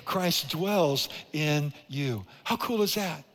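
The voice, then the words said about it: Speaking too loudly, echoing. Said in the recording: “I'm echoing now, I'm talking too loud”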